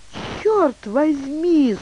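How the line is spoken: Horrified exclamation. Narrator (Russian): с ужасом воскликнула Нэнси Бруф

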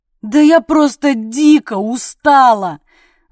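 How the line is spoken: Wailed. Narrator (Russian): взвыла я

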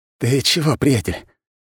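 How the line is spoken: Hoarse rasp. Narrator (Russian): прохрипел я

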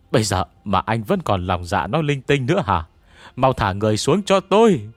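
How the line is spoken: Shouting loudly. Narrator (Vietnamese): Cao Tư Dương hét lớn

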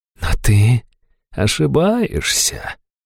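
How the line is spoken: Insinuating whisper. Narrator (Russian): вкрадчиво шепнула Хайту

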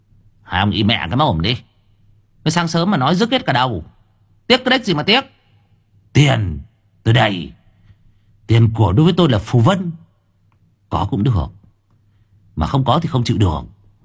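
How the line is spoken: Irritable snapping. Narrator (Vietnamese): Cậu gắt

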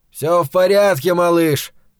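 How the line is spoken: Shout. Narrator (Russian): крикнул ему Невиль

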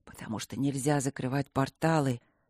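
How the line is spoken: Whisper. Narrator (Russian): прошептал темный

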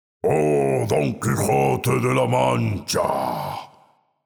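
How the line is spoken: Frightening hoarse ghostly voice. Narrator (Spanish): dijo entonces uno de los fantasmas con una voz muy ronca que daba miedo

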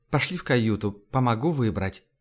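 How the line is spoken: Sighing. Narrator (Russian): Аглая вздохнула, сказала

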